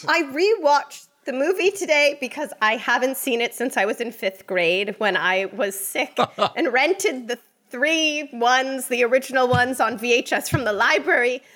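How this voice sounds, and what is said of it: Put-on British accent. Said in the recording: “I don't know why I'm still using a British accent.”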